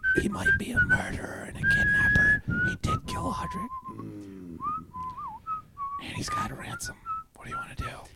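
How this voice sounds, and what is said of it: Whispering. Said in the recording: “What are you guys whispering about?”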